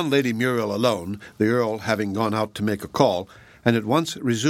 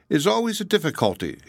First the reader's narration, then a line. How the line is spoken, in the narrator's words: she quickly put in